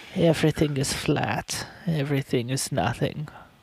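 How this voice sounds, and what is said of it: Put-on accent, pretty good. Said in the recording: “That's actually pretty good accent ... You lost it there at the end. It was so good there till the end.”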